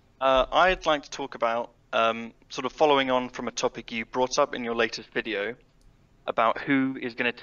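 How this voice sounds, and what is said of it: English accent from Norwich. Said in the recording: “your accent is fantastic. I'm so happy you said Norwich.”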